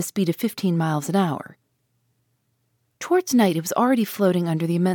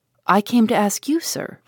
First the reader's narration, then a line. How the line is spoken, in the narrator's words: replied Conseil